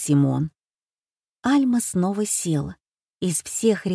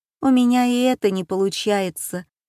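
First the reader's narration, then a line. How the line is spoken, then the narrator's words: Sigh. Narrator (Russian): вздохнула Альма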